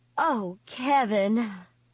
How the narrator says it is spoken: Lita said with a sigh

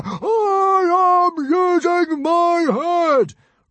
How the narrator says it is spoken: roared Stoic the Vast

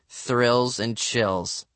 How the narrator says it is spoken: I muttered

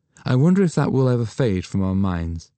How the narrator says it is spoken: she said with a little sigh

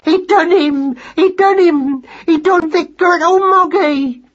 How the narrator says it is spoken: squeaked Madeline in her excitement

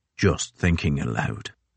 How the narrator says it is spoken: muttered Crozier

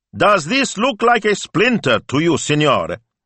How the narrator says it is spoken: he shouted

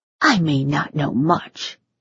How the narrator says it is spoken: she whispered

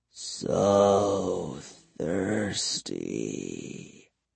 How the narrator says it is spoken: he murmured

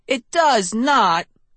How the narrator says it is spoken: he cried

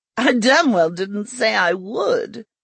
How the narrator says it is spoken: Rezi snorted

